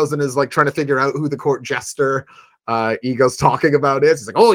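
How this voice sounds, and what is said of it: Usual voice. Nothing is said of it.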